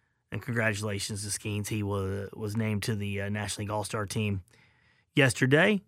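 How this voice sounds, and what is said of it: Usual voice. Nothing is said of it.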